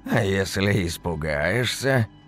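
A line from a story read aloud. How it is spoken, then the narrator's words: Sly creaky voice. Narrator (Russian): Ехидно так проскрипел, как половица старая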